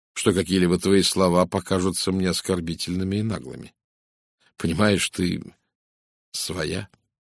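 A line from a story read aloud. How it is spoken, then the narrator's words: Serious tone. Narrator (Russian): серьезным тоном произнес он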